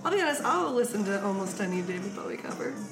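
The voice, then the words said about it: Damaged, strained voice. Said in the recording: “fucks up my voice is still. 3 weeks later ... you really hurt your vocal cords in Montreal. I really did. I fucking blew them out.”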